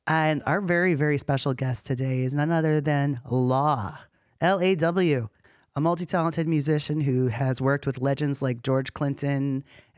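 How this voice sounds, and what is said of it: Hoarse voice. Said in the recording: “Excuse my hoarseness. I have a bit of a cold”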